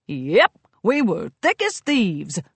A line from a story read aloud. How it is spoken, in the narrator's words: Burnt Oak chuckled